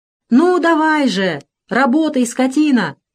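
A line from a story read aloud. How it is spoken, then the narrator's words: Angry shout. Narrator (Russian): закричал кот в сапогах на дракона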